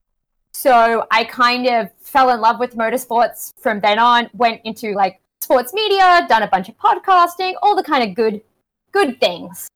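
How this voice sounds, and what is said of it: Australian accent. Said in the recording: “as my accent does attest. I am very Australian.”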